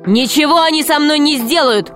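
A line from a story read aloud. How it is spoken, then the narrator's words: Shouted. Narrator (Russian): крикнул Грико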